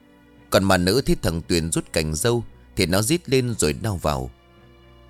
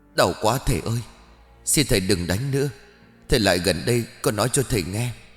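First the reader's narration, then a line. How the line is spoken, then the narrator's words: Pained moaning ghost woman. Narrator (Vietnamese): Con mà nữ đầu đớn rên rỉ rồi đáp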